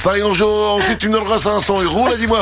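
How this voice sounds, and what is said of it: Put-on Belgian French accent. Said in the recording (French): “je le prends l'accent belge ... la phrase que tu viens de dire là, c'était pas mal”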